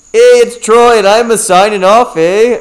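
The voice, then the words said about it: Put-on Canadian accent. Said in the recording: “I joined Canadian.”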